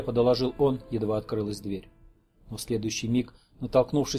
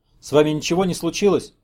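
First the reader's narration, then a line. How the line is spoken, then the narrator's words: Frightened question. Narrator (Russian): испуганно спросил Горчаков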